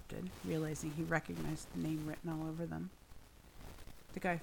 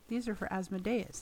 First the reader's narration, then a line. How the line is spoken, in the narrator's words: said